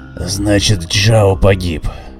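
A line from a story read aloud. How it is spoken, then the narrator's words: Hoarse flat statement. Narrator (Russian): хрипло констатировал Гриня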